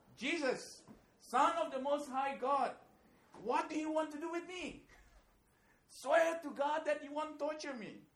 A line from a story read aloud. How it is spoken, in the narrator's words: he also screams with a loud voice